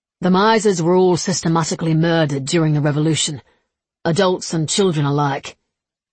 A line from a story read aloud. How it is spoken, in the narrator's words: Levi said gravely